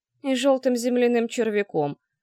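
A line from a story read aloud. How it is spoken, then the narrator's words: Rumbling grumble. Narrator (Russian): проворчала я, остаточно погромыхивая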